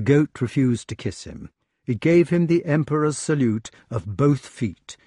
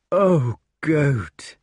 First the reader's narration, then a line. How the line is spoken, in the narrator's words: said the wart in a broken voice